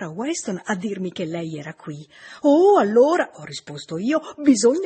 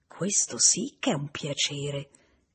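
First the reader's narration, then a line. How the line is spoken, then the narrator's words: Rather low voice. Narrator (Italian): disse con voce piuttosto bassa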